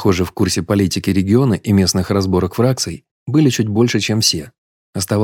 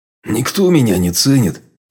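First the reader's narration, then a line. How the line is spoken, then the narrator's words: Grumbling. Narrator (Russian): проворчал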